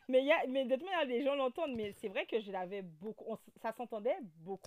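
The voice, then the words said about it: Guadeloupean accent in French. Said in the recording (French): “t'as l'accent Guada ... ton accent”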